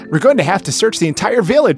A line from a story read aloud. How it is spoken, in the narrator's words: Sonic exclaimed